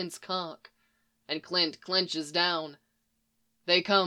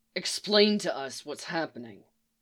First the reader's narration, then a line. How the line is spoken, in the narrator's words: he says, his voice low and venomous